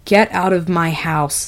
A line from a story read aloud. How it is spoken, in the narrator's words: Hal growled